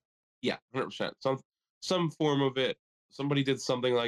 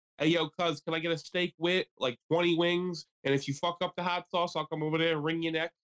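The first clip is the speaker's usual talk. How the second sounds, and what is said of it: Put-on Philadelphia accent. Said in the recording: “a Philly accent”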